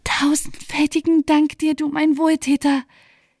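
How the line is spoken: Crying out with joyful tears. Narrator (German): rief unter Freudentränen

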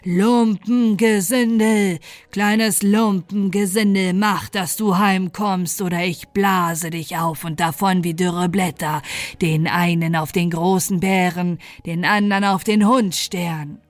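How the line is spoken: Wind thundering wildly. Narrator (German): der Wind donnerte mit seiner wildesten Stimme

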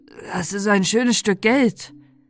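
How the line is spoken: Slightly hoarse voice. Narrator (German): sagte, seine Stimme klang etwas heiser

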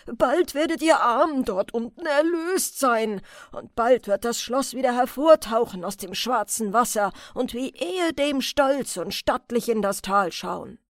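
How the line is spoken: Called loudly. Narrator (German): rief laut

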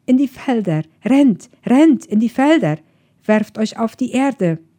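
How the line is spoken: Urgent shout. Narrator (German): rief sie den Kindern zu

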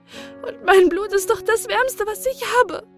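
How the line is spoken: Sobbing. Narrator (German): schluchzte sie

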